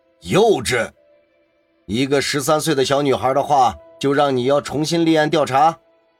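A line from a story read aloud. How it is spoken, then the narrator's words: Stern sharp rebuke. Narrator (Chinese): 局长马上厉声说道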